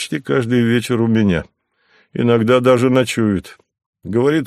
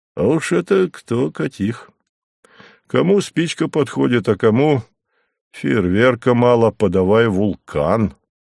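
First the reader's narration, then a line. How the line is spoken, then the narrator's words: Laughing. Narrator (Russian): рассмеялся он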